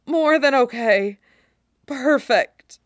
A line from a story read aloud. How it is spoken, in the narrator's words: Ija manages to croak out